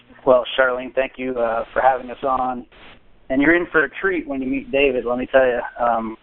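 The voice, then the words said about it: Slightly rough, sick-sounding voice. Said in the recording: “my voice is a little funky only because I've been kind of sick the last few days”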